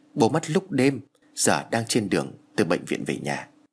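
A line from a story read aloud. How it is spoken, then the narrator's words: Choked with grief. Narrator (Vietnamese): Thằng em của tôi nghẹn ngào trả lời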